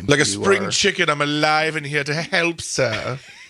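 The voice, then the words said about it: Attempted put-on accent. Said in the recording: “whatever that attempt at an accent was”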